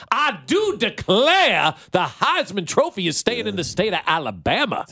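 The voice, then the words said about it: Fake Southern accent. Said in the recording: “Who does a better fake Southern accent, me or Brian Kelly?”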